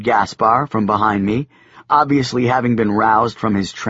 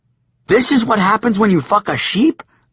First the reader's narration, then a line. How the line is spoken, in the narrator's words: I exclaimed